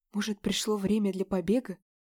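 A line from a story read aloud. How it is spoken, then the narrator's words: Whisper to self, female. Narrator (Russian): прошептала я себе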